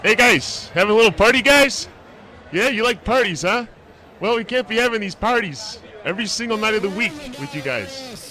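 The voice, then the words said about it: Cop voice with Chicago accent. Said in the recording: “I did the cop. I think I did the voice of the cops with the Chicago accent.”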